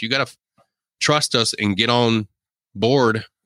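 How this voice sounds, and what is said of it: Put-on Southern American accent. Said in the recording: “very Southern accent you use there.”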